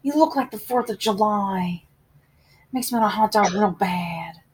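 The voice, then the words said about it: Imitates another person's voice. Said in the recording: “I don't think it's my best impression, but what did you think of my Jennifer Coolidge there?”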